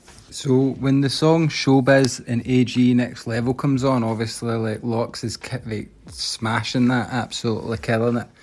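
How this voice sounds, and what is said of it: Heavy accent. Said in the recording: “Your accent is is heavy, man.”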